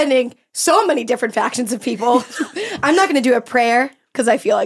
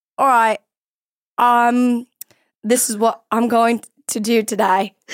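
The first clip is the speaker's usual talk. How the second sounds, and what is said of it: Put-on Australian accent. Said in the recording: “Here's my Australian accent. ... Pretty good.”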